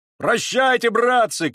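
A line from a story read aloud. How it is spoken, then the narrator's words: Blacksmith shouting back. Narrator (Russian): кричал в ответ кузнец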